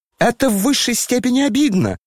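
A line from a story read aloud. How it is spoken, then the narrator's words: Shrieking. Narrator (Russian): завизжал Ипполит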